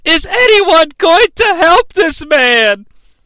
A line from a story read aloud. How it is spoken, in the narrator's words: she yells